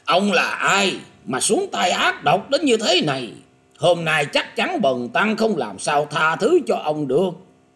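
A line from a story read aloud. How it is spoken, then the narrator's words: Terrified loud shout. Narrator (Vietnamese): Quảng Minh Pháp Dương không khỏi hết sức kinh hoàng, nhanh nhẹn quát to lên rằng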